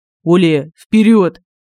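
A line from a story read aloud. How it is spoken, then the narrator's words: Tense voice. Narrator (Russian): Напряженным голосом сказал Семен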